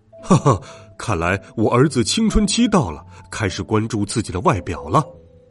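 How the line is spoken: Laughing. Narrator (Chinese): 爸爸笑着说

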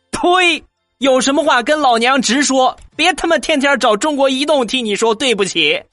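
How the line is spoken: Loud angry shouting. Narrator (Chinese): 冲着电话大声的喊道

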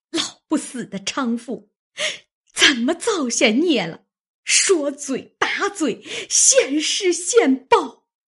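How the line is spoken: Frustrated cursing. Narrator (Chinese): 王家的无处煞气 骂道

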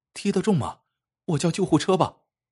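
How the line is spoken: Hurried, worried. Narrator (Chinese): 小叶顾不上去追，只是急忙蹲下来问小伙子

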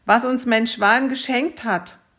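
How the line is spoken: Tsarevich calling out. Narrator (German): rief der Zarewitsch

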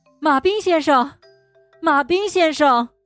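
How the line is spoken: Shouting. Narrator (Chinese): 她开始大喊

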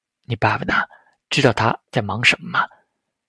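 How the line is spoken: Soft question. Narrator (Chinese): 陶志明轻声问起来

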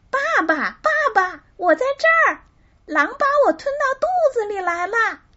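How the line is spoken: Hurried shout. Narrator (Chinese): 汤姆连忙喊道

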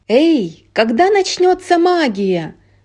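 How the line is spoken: Small boy's exclamation. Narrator (Russian): воскликнул маленький мальчик

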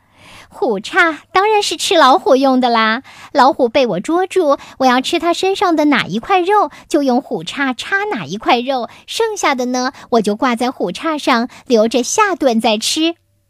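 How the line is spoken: Bold hearty laughter. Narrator (Chinese): 鹿壮了壮胆，哈哈大笑

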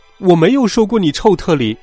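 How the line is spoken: Loud. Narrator (Chinese): 我大声说

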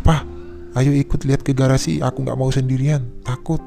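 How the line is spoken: Trembling, frightened voice. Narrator (Indonesian): kata kakak dengan suara gemetaran

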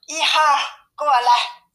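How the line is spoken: Calling out. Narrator (Chinese): 熊妈妈叫道

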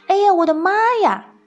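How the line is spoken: Sudden scream. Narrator (Chinese): 突然有人尖叫了一声

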